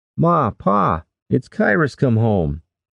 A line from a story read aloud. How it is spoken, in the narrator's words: Keaton shouted